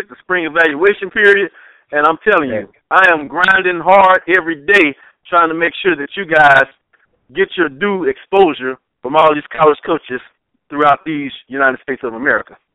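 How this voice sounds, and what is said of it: Excited, energetic voice. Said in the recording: “you hear it in my voice. I'm excited, man.”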